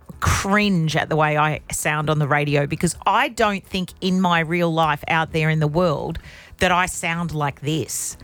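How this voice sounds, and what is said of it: Broad Australian accent. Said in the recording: “Like a broad Australian accent. ... It's very broad.”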